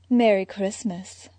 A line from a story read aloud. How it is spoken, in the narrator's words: Selina had purred with that naughty grin